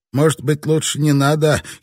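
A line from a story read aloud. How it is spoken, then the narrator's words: Giggling man. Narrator (Russian): хихикнул невысокий сухопарый рыбак Хару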